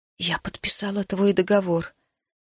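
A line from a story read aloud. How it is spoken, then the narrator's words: Quiet, clear speech. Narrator (Russian): тихо и отчетливо проговорила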